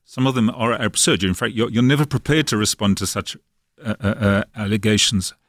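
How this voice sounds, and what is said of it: South African accent. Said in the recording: “as you know from my accent, I was actually brought up in South Africa”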